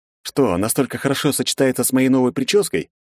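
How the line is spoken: Amused snort. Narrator (Russian): хмыкнул я в ответ

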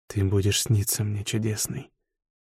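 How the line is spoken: Whisper. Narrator (Russian): прошептал лекарь

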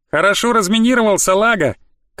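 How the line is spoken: Farewell shout. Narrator (Russian): крикнула она на прощание

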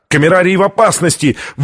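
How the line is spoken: Urgent shout. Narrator (Russian): выкрикнул ученый

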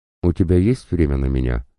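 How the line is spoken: Plain. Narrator (Russian): спросила Катя

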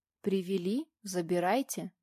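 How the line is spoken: Calm, suppressing sarcastic laugh. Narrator (Russian): Еле сдерживаясь от саркастического смешка, спокойно ответила я

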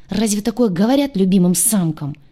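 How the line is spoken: Grumbled in annoyance. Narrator (Russian): пробурчал он от досады

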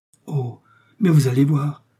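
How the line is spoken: Novice crying out. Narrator (French): s'écrie la novice

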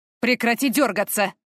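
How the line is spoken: Man growling. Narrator (Russian): рыкнул мужчина

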